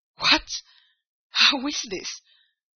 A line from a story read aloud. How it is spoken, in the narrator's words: exclaimed heartily